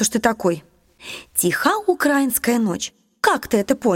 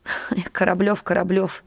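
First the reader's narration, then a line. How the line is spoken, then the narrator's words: Sad, hopeless. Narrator (Russian): грустно и как-то безнадежно сказала Елизавета Николаевна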